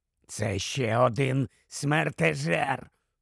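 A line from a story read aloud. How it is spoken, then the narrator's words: Hissed into ear. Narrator (Ukrainian): просичав Грибхук в вухо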